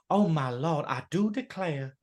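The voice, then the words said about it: Put-on Southern belle accent. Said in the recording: “really strong Southern American accent ... I love that accent ... Southern Belle kind of thing with a wonderful accent”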